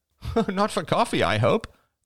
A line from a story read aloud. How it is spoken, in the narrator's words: laughed Crystal